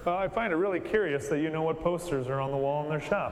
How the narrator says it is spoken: I chuckled and I said

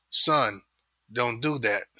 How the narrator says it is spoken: she said in her most stern voice

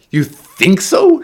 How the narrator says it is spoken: she screamed

